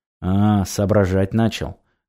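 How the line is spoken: Snorting, wry. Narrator (Russian): хмыкнул сталкер

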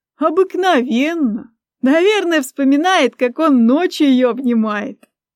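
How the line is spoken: Ringing laughter, girlfriend. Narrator (Russian): заливисто рассмеялась подружка

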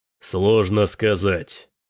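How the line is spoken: Growling. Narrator (Russian): прорычал Тирак

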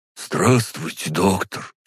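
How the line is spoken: Slightly hoarse. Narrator (Russian): чуть хрипло произнес

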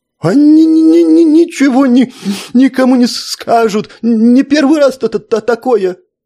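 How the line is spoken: Groaning. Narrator (Russian): простонал нотариус

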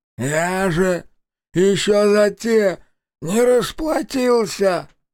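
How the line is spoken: Hoarse, bleeding. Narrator (Russian): Прохрипел он, держась за лицо, из которого хлестала кровь

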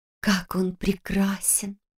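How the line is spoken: Whisper. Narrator (Russian): шепнула Лиз

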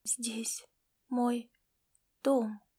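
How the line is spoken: Strained, choking on blood. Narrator (Russian): выдавила она, давясь пузырящейся алой кровью

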